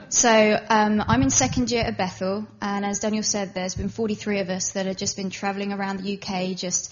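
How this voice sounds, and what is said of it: English accent with slight American twang. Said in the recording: “As you can hear, I am actually English. Though people have told me I've got a little bit of a twang, but being married to an American, I'm going to pick up some of the accent.”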